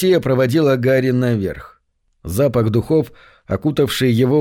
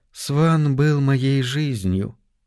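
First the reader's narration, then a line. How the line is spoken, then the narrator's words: Soft addition. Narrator (Russian): мягко добавила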